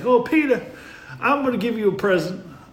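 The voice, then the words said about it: Attempted Kentucky accent. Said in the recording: “I don't know how to do this Kentucky accent”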